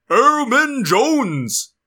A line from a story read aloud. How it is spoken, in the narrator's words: Torelli yelled